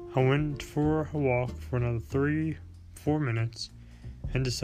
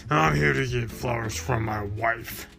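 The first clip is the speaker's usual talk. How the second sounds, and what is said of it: Angry voice. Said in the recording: “in an angry voice.”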